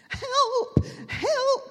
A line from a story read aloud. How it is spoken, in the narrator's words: shrieked the geese and ducks in terror